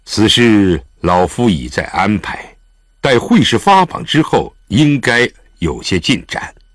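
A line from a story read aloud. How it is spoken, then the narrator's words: Startled, then deep-voiced. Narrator (Chinese): 狄仁杰又是一怔，少顷才沉声道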